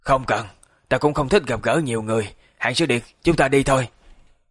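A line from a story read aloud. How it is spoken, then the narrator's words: Hoarse voice. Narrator (Vietnamese): Khúc Hồn mở miệng khàn khàn nói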